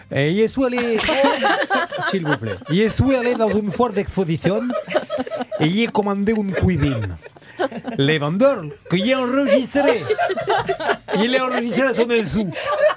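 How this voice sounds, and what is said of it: Put-on Mexican accent in French. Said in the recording (French): “Un accent étranger? ... un accent étranger ... je verrais bien un Mexicain qui soit là chez nous en France”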